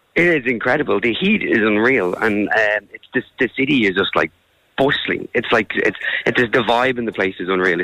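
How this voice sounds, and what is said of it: Losing his voice, strained. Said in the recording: “My voice isn't so much here anymore.”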